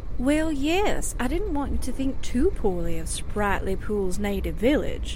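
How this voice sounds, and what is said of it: Southern drawl. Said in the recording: “that southern drawl that I'm always hearing drip from your lips”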